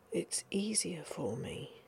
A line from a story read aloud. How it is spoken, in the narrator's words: he whispered